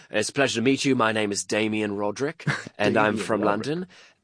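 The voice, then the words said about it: Put-on British accent. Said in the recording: “pretending to be British men ... Please tell me you had an accent to go along with it. Oh, of course. You know, we'd be talking like this”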